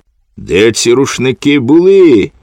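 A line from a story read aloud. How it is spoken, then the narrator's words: Shout. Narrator (Ukrainian): крикнула вона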